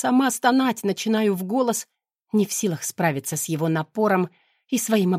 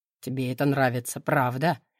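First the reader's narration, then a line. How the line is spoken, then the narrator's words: Low muffled vibrating voice. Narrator (Russian): Его голос глухо вибрирует где-то над ухом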